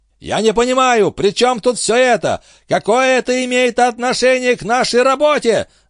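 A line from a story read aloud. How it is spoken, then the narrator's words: Yelling in strained voice. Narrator (Russian): заорал Энди не своим голосом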